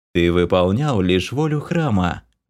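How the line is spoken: Gentle goddess. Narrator (Russian): ласково молвила богиня

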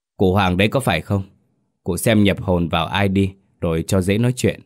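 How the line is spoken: Stern voice. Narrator (Vietnamese): Thầy Bằng cất giọng nghiêm nghị

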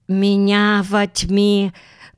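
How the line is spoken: Lisping babble. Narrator (Russian): пролепетала она своим шепелявым говорком

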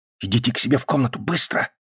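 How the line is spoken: Whisper. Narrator (Russian): прошептал Гарри

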